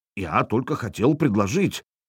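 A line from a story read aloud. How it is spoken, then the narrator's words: Muttered. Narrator (Russian): пробормотал он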